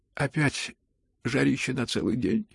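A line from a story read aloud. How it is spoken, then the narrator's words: Carelessly annoyed yawning mutter. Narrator (Russian): С небрежной досадой бормотал Ганя, зевая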